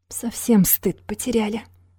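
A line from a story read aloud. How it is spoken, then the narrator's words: Breathy exhale. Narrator (Russian): выдохнул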